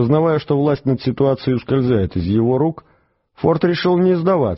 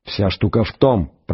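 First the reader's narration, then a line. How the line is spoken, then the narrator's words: Hissed through teeth. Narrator (Russian): прошипел он сквозь зубы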